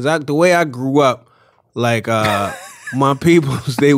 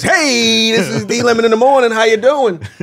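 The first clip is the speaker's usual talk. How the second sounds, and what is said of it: Radio DJ voice. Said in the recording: “You can put on some radio voice.”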